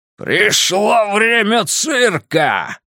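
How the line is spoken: Clown's growling shout. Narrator (Russian): прокричал клоун рычащим голосом

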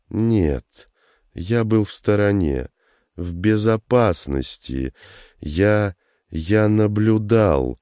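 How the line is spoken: Slow halting speech. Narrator (Russian): говоривший медленно, с трудом подбирал слова

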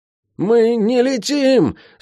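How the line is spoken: Strained hoarse wheeze. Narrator (Russian): с трудом просипел ученик Цейра Сани

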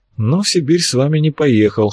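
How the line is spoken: Wry snort. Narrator (Russian): хмыкнул Арцулов

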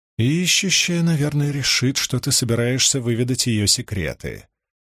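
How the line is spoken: Muttered. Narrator (Russian): пробормотала Найниф

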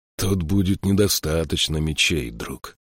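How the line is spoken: Whisper. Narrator (Russian): прошептал Эйстан

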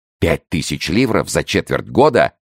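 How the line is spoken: Amazed exclamation. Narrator (Russian): воскликнул Кольбер не менее Фуке, изумленный значительностью суммы

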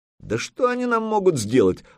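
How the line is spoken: Exclaiming. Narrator (Russian): воскликнул Свиди

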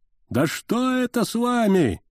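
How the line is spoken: Yelling. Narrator (Russian): вопит Ризенфельд

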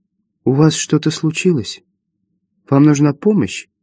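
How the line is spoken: Gentle question. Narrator (Russian): Мисс Адамс мягко спросила

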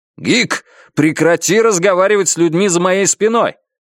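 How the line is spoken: Yelling. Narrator (Russian): завопил я

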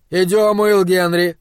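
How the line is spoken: Shout. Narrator (Russian): крикнул доктор

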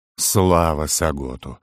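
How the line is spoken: Exhaled with sincere relief. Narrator (Russian): с искренним облегчением выдохнул Фор

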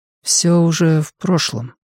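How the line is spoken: Quiet. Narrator (Russian): тихо ответила она

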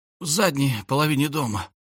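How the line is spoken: Creature's hiss. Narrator (Russian): прошипел ползец

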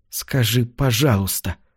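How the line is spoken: Muttered. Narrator (Russian): пробормотала она

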